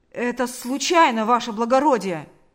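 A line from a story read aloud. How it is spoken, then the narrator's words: Shout. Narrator (Russian): закричал он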